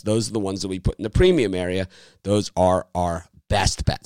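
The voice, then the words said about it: Strained, hoarse voice. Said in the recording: “my voice is a little bit under the weather here. It's from screaming at the TV yesterday”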